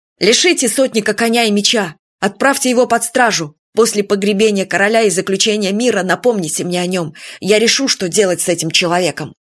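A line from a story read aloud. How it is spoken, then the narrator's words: Snarling shout. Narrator (Russian): Уна Тур крикнул, оскалившись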